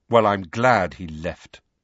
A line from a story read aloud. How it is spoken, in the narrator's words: Harry said coldly